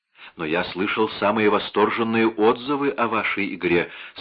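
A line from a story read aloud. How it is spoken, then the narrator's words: Plain. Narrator (Russian): сказал Раф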